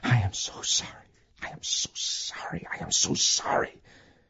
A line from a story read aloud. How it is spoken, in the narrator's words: Emil's voice, like the repetitious chant of a rosary, whispering again and again